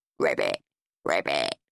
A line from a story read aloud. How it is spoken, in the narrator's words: croaked Horrid Henry